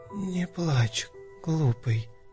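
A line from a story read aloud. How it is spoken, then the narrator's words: Barely audible whisper. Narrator (Russian): уже едва различимо прошептала Иванка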